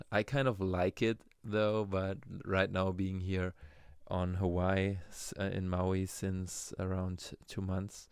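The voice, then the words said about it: German accent in English. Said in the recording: “my accent that I have, my German accent.”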